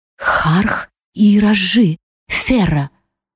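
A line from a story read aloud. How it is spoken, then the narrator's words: Whisper. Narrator (Russian): Услышав мой шепот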